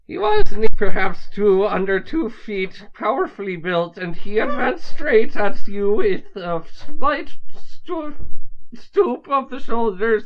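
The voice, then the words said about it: Put-on Irish accent reading aloud. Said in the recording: “Read the opening paragraph in an Irish accent.”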